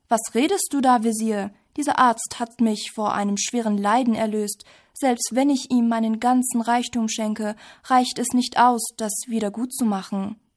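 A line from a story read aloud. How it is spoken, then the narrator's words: King shouting indignantly. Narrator (German): Der König rief aufgebracht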